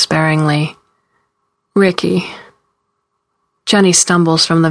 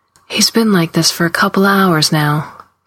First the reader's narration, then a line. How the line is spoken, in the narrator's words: Carlene says in a low, steady voice